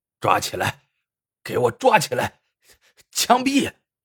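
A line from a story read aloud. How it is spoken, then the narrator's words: Furious roar. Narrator (Chinese): 张大帅气晕了，怒吼道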